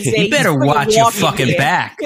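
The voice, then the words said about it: Imitates another person's voice. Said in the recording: “Is the accent... full Joe Pesci”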